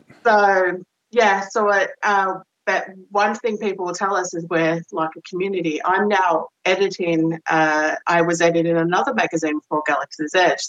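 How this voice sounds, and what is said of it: Australian accent. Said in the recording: “I'm Australian. It filters in every now and then. ... I couldn't tell from your accent. ... does not mean you lose your accent. ... Definitely not.”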